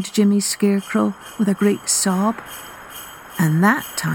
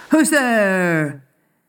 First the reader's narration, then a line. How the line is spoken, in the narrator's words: he shouted out of the darkness